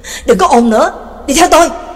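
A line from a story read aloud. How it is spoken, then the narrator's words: Sudden roar. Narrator (Vietnamese): Trắc Mộc Cường Ba đột nhiên gầm lên một tiếng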